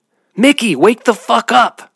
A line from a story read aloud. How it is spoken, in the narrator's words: she screamed